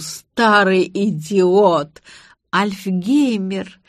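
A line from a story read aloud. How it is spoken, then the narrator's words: Giggling. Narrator (Russian): хихикнула я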